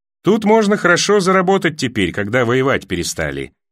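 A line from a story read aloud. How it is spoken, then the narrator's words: Cheerful explanation. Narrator (Russian): весело пояснил мельник с ближней повозки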